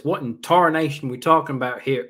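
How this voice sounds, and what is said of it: Put-on folksy accent. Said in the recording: “sorry, I'll drop the accent.”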